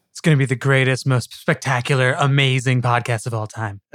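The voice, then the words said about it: Bad imitation of another person's voice. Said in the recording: “trying to like do Trump imitations on Zoom in addition to like an actual voice imitation that he just did ... it was a complete failure ... doing a really bad impression of Colbert's impression of Trump”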